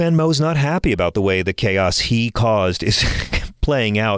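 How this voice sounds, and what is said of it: Usual voice. Nothing is said of it.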